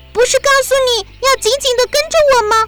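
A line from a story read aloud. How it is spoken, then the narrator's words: Loud shouting. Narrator (Chinese): 丽塔大声地叫着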